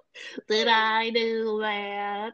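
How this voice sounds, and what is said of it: Steve Urkel character impression. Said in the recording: “Worst circle impression”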